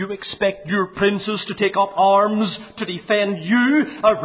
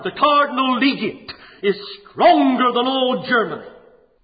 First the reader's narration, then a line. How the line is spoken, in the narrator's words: The Pope's middle finger thundered